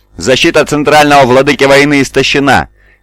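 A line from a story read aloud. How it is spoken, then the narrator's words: Shouting. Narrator (Russian): крикнул Пал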